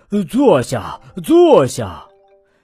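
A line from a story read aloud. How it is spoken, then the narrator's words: Breathless, panting. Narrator (Chinese): 圆胖医生又气喘吁吁地说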